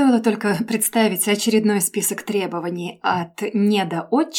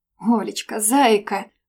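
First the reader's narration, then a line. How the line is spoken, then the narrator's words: Pleading. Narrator (Russian): взмолилась я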